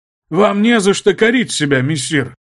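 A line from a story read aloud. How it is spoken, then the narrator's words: Loud. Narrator (Russian): громко произнес граф де Патье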